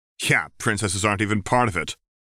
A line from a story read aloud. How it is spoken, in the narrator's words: she said bitterly